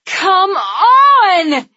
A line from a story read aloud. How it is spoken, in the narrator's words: Andy screamed